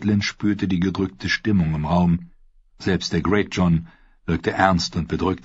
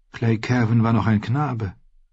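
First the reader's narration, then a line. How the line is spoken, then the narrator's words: Sad. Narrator (German): sagte sie traurig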